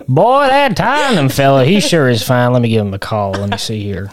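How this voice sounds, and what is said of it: Put-on Florida Panhandle Southern accent. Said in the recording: “Tottenham's managed by a man from the Florida Panhandle.”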